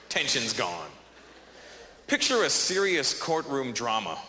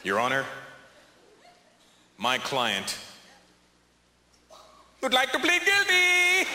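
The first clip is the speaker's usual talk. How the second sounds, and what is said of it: Put-on Indian accent. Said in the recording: “the Indian accent ... pop in the Indian accent”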